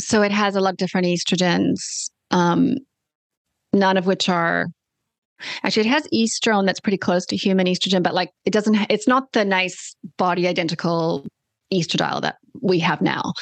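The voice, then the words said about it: Australian accent. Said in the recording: “I have my Australian accent happening here.”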